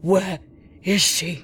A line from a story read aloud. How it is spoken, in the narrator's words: he gasped